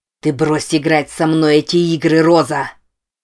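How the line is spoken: Growling. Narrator (Russian): прорычал

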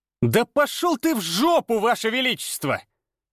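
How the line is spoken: Straining roar. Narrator (Russian): Надсаживая глотку, взревел Даниил

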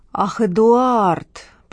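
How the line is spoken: Drawl. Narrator (Russian): протянула Лола

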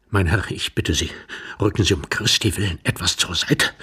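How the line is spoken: Whispered. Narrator (German): flüsterte Iwan Andrejewitsch

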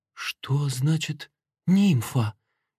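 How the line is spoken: Frightened question. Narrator (Russian): испуганно спросила Меда

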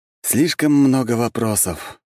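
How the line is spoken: Sigh. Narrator (Russian): вздохнул я

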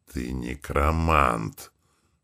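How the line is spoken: Hiss. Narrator (Russian): прошипело одно из существ

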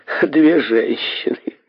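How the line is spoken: Laughing. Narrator (Russian): рассмеялся Денби

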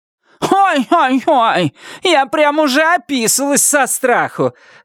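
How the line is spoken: Loud mocking shout. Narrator (Russian): громко крикнула Вильма ей вслед

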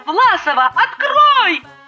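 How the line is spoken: Exasperated yell. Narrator (Russian): Завопила я, когда звонить надоело

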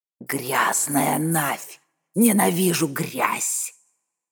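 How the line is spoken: Hissed. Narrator (Russian): прошипела она

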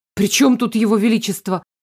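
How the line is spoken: Indignant rapid chatter. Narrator (Russian): возмущенно затараторила

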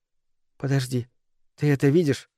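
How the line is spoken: Whisper. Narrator (Russian): прошептала Микаэла

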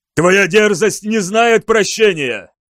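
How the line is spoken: Roared. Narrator (Russian): взревел Астилян

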